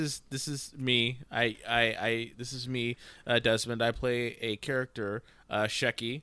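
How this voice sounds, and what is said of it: Usual voice. Nothing is said of it.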